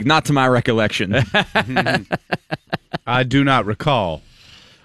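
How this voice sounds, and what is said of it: Put-on Southern American accent. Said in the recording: “Why are you speaking in a southern accent”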